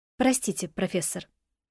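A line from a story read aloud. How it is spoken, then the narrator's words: Quiet and sad. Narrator (Russian): откликнулась я тихо и печально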